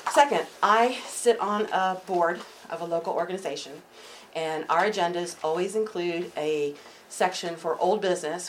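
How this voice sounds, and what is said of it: Out of breath, breathy speech. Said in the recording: “I'm out of breath because I rushed up here.”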